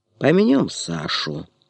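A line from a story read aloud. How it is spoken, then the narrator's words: Calm. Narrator (Russian): спокойно сказал Бессонов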